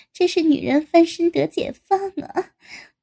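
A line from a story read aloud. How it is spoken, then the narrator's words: Laughing. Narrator (Chinese): 高志新还笑道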